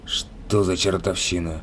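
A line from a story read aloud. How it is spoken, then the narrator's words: Muttered. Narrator (Russian): пробормотал Лис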